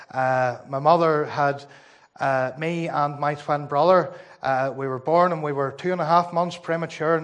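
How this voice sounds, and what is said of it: Northern Irish Ballymena accent. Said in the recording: “my lovely accent, I am a Ballymena man”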